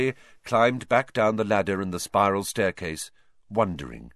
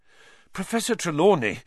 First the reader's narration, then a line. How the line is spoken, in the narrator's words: Harry panted